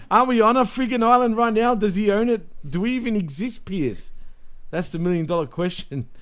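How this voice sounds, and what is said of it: Put-on foreign accent. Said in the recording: “I'm American, bro. Come on. I'm just putting on this accent.”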